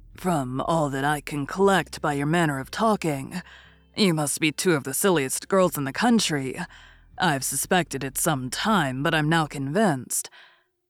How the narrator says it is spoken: Bennet coolly observed

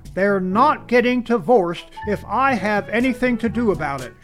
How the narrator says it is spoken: she shouts

